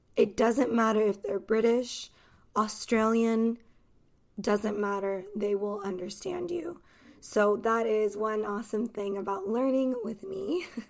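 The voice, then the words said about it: Neutral Los Angeles American accent. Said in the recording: “an accent, which is my accent, and I am from Los Angeles, California ... accent is from California and the city of Los Angeles ... it's easy to understand. It's neutral.”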